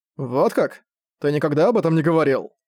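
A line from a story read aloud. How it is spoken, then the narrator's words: Accusing tone. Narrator (Russian): обвиняющим тоном сказал Зак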